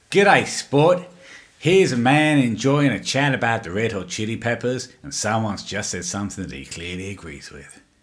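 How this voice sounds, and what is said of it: Put-on Australian accent. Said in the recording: “I'd have to do my Australian accent.”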